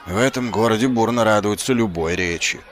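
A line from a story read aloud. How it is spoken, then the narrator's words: Grumbling. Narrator (Russian): проворчал Ваймс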